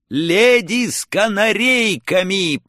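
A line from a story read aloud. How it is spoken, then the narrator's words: Foolish shout. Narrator (Russian): по-дурацки прокричал я в ответ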